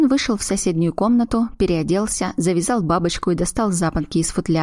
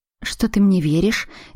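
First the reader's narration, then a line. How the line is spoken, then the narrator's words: Uncertain question. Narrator (Russian): неуверенно спросила Аглая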